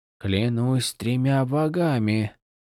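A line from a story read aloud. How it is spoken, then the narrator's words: Whispered. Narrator (Russian): прошептал один высокий парень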